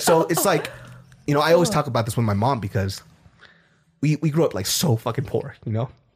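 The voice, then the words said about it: Teary, emotional voice. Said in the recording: “I'm getting teary... you're making me cry... You're making me cry.”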